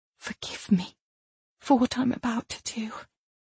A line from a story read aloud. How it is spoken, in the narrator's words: she whispered